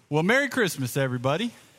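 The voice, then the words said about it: Southern country-sounding accent. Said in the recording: “I sounded like a guy from South Georgia just then. That came out kind of country.”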